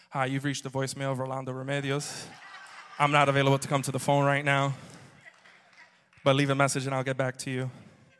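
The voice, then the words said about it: Imitates another person's phone voice. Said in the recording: “Pastor Ro has a phone voice. We've all heard Pastor Ro's phone voice. This is what it sounds like.”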